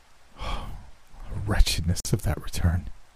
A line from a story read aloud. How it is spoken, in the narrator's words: he murmured